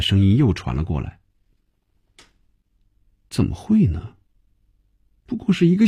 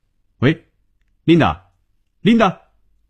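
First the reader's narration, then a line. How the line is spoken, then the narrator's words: Shouting. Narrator (Chinese): 红军便对着手机嚷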